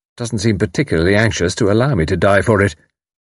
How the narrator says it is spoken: said Tommy dryly

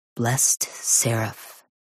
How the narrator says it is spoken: Sister May, one of Mom's friends, whispers

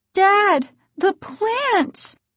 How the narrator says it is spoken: Margaret cried

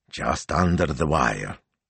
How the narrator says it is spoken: he muttered grimly, thinking of Monday's looming deadline

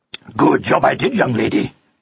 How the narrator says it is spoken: growled Pug

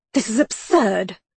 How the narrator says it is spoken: Gillingham snapped

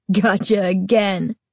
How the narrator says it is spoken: Chuck said with a laugh

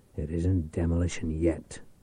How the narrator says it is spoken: Reich muttered

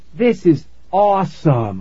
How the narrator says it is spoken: I exclaimed

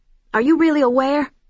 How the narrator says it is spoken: blurted

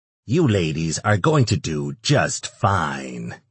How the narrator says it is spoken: he growled

